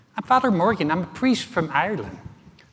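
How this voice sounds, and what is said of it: Poor imitation of an Irish accent. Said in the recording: “that's a horrible Irish accent”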